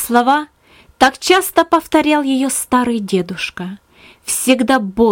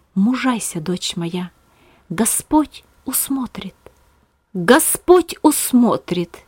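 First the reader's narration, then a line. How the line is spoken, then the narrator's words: Inner whisper. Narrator (Russian): голос в своем сердце, шептавший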